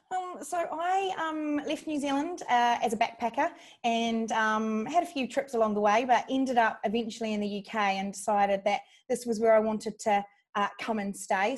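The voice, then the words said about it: Non-British English accent. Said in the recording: “not a particularly British accent you have”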